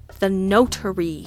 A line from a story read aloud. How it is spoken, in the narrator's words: I said through gritted teeth